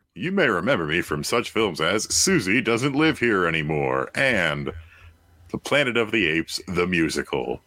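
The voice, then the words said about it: Troy McClure impression. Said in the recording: “I'd like to see a Troy. ... A Troy McClure? I'm Troy McClure.”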